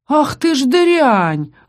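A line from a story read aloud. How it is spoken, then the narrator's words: Pained howl. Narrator (Russian): взвыл укушенный пастух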